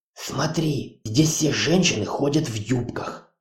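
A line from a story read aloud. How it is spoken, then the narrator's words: Whisper. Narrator (Russian): прошептала Хона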